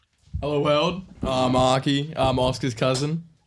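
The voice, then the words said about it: Put-on deeper voice. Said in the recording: “Putting on a deeper voice than you usually have.”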